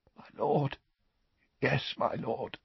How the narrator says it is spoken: gasped Rookwood, his voice hoarse with relief

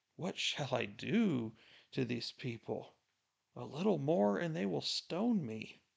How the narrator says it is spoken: Moses cried out to the Lord, saying

